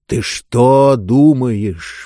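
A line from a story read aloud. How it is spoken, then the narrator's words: Slow speech. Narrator (Russian): медленно заговорил Нетвердаебл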